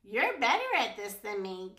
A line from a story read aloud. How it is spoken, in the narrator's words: giggled Poppy